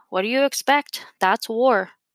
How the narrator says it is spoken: someone said, sighing

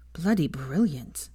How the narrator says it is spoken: Theo mumbled

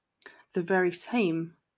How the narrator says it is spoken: Draco sighed

